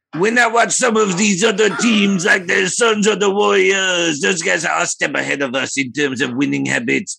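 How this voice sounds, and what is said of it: French-accented imitation of another person's voice. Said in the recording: “a pitch perfect version of Rudy Gobert's voice ... French accent ... I'm going to sound exactly like Rudy Gobert ... It's a spot on voice.”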